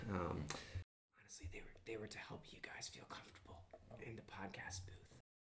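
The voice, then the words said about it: Loud whisper. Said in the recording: “That's why it was a loud whisper. It's an art form.”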